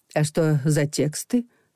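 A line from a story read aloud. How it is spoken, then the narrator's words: Plain. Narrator (Russian): спросила Елена Андреевна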